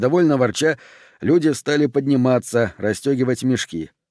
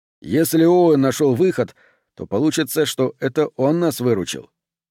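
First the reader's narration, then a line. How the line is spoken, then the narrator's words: Sharp. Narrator (Russian): Айк говорил резко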